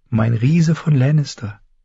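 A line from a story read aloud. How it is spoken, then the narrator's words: Purring. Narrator (German): schnurrte sie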